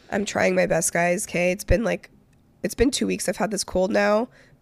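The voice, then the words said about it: Cracky, hoarse voice. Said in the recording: “a little bit of a cracky voice”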